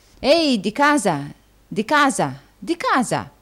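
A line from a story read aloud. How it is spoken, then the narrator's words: Exclaimed. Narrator (Italian): esclamò il signor Folair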